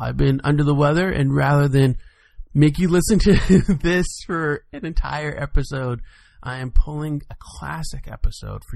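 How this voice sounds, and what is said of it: Sick, unwell-sounding voice. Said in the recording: “As you can probably tell by my voice, I am not feeling well.”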